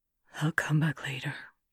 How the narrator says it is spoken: Lenchen murmurs

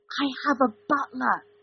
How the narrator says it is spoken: Dean whispered at Sam

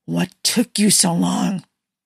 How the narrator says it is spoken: Steve hissed

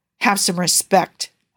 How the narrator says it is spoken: Howard spat out

